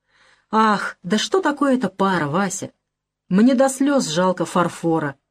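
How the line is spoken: Plain. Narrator (Russian): говорит дядюшка

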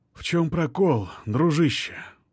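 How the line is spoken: Whisper. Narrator (Russian): прошептал музыкант

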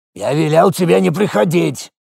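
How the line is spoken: Shaman's grumble, turned away. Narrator (Russian): Не оборачиваясь пробурчал шаман

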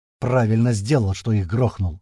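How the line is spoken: Angry hiss. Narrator (Russian): зло шипит Слива

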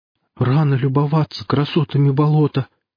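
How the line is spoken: Timid babble. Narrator (Russian): пролепетал я

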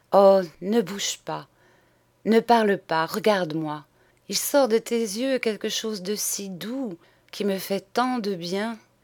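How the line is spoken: Breathless, enraptured murmur. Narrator (French): Elle murmurait, comme suffoquée d'enivrement

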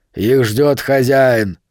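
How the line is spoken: Sharp bark. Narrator (Russian): Кобра тут же рявкнул

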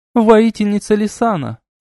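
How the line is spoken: Joyful greeting. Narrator (Russian): радостно приветствовала она

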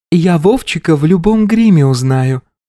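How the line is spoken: Pretty elf voice. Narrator (Russian): произнесла красивым голоском эльфийка

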